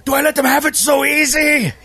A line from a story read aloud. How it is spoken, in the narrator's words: He yells out to the crowd, trying to get them fired up